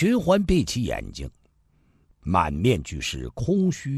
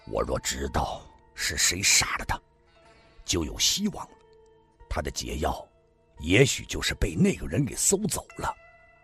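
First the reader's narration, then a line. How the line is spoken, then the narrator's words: Big man, low voice. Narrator (Chinese): 虬髯大汉 低声地说道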